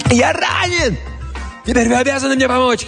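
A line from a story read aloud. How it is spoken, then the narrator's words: Shouting. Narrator (Russian): кричал Джомфри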